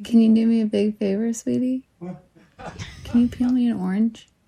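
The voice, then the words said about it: Sultry, seductive voice. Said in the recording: “She's going to ask him in her sultry voice.”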